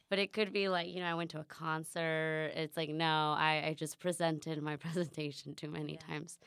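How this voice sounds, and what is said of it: Hoarse, lower-sounding voice. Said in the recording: “my voice sounds mature. But I actually lost my voice practicing for a presentation ... my voice sounds different”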